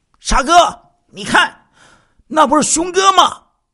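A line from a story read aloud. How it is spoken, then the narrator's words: Hurried calling out. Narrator (Chinese): 施碧莎…连忙呼叫着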